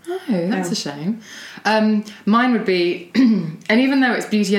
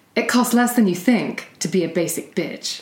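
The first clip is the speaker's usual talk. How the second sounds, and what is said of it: Put-on American accent. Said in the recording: “I'd have to do it in American accent, because it's the only way I can perform.”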